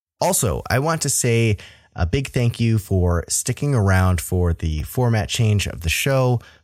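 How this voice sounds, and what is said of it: Slightly rough, hoarse voice. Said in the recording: “my voice sounds a little rough this episode... I'm just getting over a bout of bronchitis”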